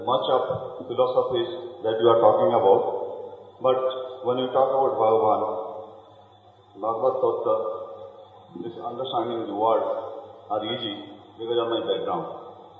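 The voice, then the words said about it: Speaks with a regional accent. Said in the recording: “I can guess by your accent.”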